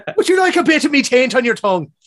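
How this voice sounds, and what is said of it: Put-on Irish-Scottish accent. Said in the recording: “your, like, Irish accent, even though that's, like, a Scottish thing, just gets better ... Or maybe it's your Scottish impressive accent, but it's got to go through Ireland first”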